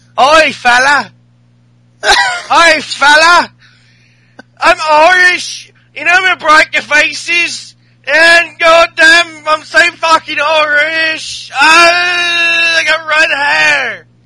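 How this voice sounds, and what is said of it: Bad put-on Irish accent. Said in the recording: “Can we all agree not to do any Irish accent ... It's too hard. It's too hard for both of us.”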